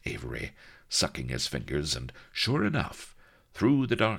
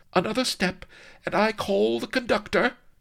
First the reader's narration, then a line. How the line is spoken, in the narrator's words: cried Lady Vanity proudly